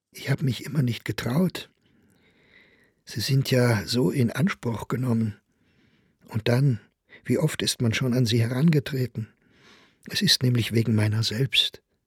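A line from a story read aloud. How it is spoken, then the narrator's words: Very anxious addition. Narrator (German): setzte er ganz ängstlich hinzu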